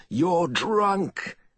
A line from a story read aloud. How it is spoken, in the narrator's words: Gwen shouted at him through the keening winds